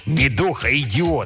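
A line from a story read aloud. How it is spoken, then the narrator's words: Spiteful. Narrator (Russian): сказал он злобно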